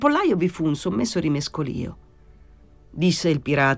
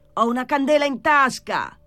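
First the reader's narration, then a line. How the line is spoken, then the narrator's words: Shout. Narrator (Italian): gridò Pilon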